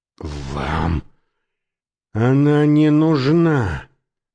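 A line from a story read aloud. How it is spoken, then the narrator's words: Male hiss. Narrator (Russian): прошипел он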